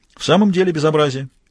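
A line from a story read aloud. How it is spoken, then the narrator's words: Cheerful. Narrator (Russian): весело сказал Мазур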